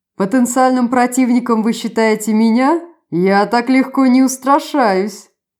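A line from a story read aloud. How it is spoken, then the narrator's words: Laughing to tears. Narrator (Russian): Герцог опять расхохотался до слез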